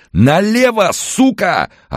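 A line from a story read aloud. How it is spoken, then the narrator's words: Frenzied yelling. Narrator (Russian): орал ему обезумевший парень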